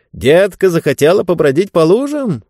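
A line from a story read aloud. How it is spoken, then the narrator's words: Cheerful question. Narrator (Russian): весело спросил папа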